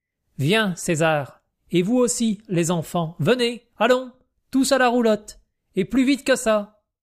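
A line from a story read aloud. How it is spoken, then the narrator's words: Imperious commanding tone. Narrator (French): ce fut dit d'un ton si impérieux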